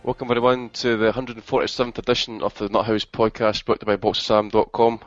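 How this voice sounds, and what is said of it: Hungover-sounding voice. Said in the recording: “a very hungover ... as you can probably tell by my voice”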